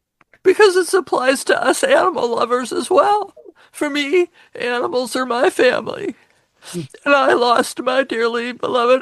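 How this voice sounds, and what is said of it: Tearful, emotional voice. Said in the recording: “maybe you can hear it in my voice, because now it's going to be my turn to cry”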